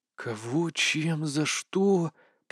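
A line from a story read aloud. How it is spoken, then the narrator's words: Confused mutter. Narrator (Russian): пробормотал Ван Шиэр, сражаясь с кашей в голове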